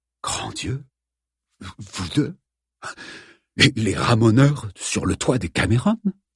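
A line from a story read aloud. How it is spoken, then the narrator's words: Breathless whisper. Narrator (French): dit dans un souffle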